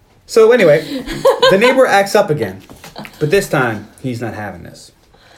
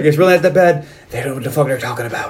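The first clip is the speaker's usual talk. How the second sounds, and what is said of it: Character voice with a slipping accent. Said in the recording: “Your Venom sounded like Colin Farrell there for a minute. I think your pants have influenced your accent.”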